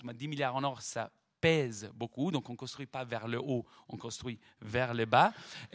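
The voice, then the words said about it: Italian accent speaking French. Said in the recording (French): “mon, accent italien”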